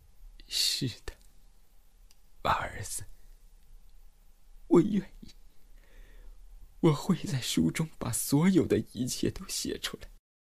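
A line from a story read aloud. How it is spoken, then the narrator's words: Choked, tearful voice. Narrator (Chinese): 我哽咽着对他说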